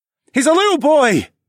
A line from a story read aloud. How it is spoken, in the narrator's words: Harris shouted